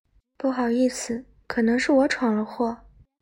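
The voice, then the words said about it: Quiet, nervous, shy voice. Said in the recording (Chinese): “小声说 ... 她略有些紧张，又带点羞涩”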